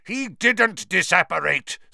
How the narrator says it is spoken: Snape roared, very close at hand

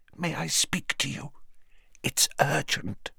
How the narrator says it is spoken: she said in a strained whisper

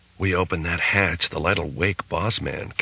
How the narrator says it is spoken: Case whispered

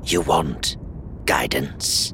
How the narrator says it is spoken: the raspy-voiced woman asked

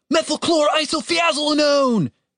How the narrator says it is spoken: He shouted

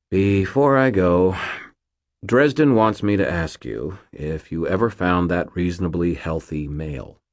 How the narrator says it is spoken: Mort sighed, said

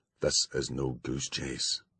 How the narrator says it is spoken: he said softly, then with considerably more force

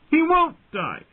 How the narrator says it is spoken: Bran screamed at him

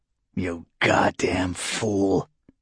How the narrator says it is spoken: Varric rasped

